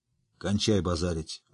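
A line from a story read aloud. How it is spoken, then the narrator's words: Grumbling. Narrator (Russian): буркнул Ярпин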